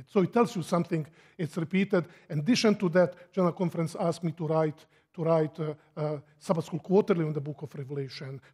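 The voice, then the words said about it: Speaks English with a foreign accent. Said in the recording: “The problem was my accent.”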